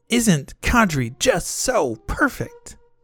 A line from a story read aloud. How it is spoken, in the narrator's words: She had yelled